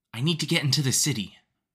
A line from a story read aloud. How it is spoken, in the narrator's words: the boy named Teo said, panting